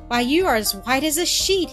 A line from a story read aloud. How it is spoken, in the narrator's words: he exclaimed